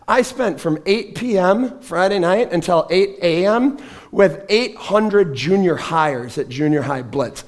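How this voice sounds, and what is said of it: Hoarse, strained voice. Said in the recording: “I lost my voice ... I may have done a little bit of shouting over the volume of all of these kids”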